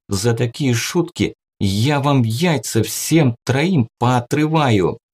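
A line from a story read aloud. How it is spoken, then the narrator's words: Menacing, through gritted teeth. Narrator (Russian): Грозно цедит сквозь зубы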